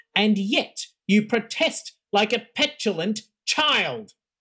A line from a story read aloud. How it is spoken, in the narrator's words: shouted